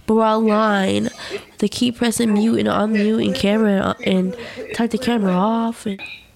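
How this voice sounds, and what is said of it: Frustrated speaking voice. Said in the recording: “hear the frustration in my voice”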